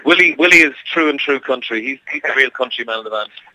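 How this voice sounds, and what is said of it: Irish accent. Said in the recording (French): “We are Irish, so we got that accent in our music. We got the accent in our voice.”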